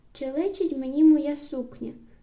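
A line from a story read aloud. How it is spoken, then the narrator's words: Exclaimed. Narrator (Ukrainian): вигукнула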